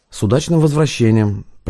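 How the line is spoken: Woman's voice. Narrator (Russian): проговорил водитель женским голосом

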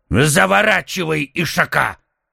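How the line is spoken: Rough. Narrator (Russian): Грубо сказал слуга

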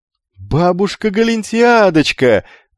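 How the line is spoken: Wild frantic yell. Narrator (Russian): заорал он дурным голосом

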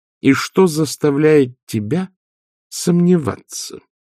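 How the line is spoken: Slow question. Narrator (Russian): медленно спросила матушка

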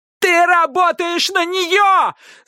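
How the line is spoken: Yelling. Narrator (Russian): заорала Пиппа

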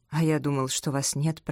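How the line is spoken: Muttering. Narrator (Russian): пробормотал Артур

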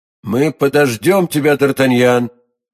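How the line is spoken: Loud enough to overhear. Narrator (Russian): сказал Атос достаточно громко, чтобы кардинал услышал его

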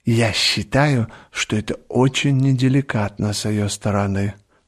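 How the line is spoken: Whispered complaint. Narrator (Russian): шепотом жаловалась леди Нарбора

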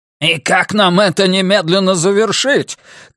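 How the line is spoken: Shouting through loudspeaker. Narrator (Russian): крикнул в громкоговорителе Грюнвальд

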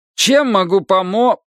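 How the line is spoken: Cut-off speech. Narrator (Russian): начал он, но не договорил

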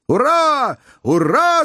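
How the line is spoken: Joyful shout. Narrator (Russian): закричал Джо, когда облегченный шар сразу подпрыгнул вверх футов на 300

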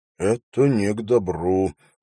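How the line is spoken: Muttered from behind. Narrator (Russian): пробормотал Хоррес позади него

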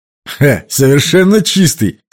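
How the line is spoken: Laughing. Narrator (Russian): сказал он, рассмеявшись

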